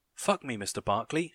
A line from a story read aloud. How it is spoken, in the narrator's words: she cried